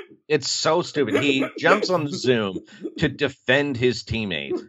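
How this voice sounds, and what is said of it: Usual voice. Nothing is said of it.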